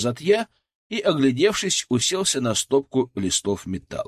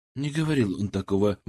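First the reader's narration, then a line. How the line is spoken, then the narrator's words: Grumbling mutter. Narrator (Russian): буркнул Ларионов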